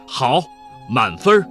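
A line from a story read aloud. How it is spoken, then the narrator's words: Loud. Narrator (Chinese): 长舒一口气，满意地大声地说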